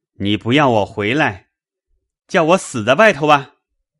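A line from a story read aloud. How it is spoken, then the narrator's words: Shouting. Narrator (Chinese): 贾琏嚷道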